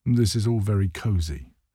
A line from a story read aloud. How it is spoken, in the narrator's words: Wicked Santa says